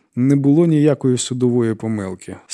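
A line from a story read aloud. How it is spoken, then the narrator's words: Calm. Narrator (Ukrainian): спокійно сказала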